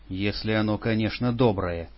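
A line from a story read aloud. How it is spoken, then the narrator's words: Grumbling. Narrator (Russian): проворчал Попов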